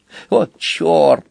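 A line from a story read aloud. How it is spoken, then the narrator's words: Mutter. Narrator (Russian): пробормотал Сквилл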